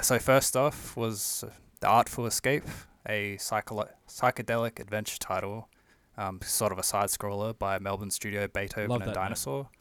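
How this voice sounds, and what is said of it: Strong Australian accent. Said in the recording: “that strong Australian accent that I always forget I have”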